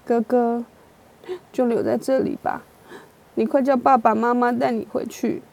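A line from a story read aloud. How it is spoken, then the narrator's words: Grandmother, crying. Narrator (Chinese): 祖母哭着说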